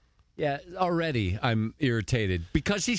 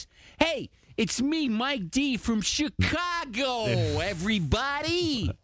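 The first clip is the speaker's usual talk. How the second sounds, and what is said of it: Imitates radio host's affected inflection. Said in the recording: “he's got like this radio affectation, this inflection in his voice ... He's doing his man cow impression.”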